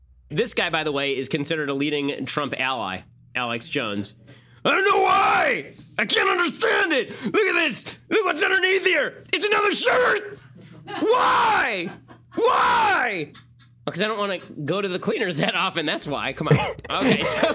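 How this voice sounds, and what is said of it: Loud ranting impression of another person. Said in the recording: “here is me doing my Alex Jones impersonation”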